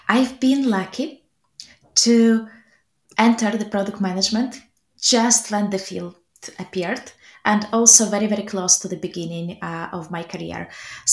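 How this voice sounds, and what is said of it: Russian accent. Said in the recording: “I was born in a small place called Belgorod, just on the country border between Russia and Ukraine, in case you're wondering where my accent is coming from”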